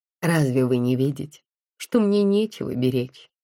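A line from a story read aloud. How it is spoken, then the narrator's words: Laughing. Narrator (Russian): засмеялась я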